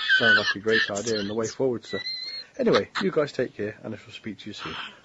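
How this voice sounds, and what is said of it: Classy British accent. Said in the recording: “the dichotomy between what he was saying and how he was saying it was just unreal. Very classy in a British accent.”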